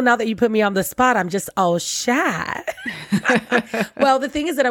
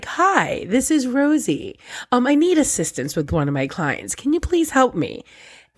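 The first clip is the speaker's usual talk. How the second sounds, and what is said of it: Prim professional telephone voice. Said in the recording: “I have my professional voice ... people think I'm an old white lady”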